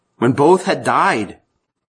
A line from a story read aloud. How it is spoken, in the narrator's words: the rich man cried out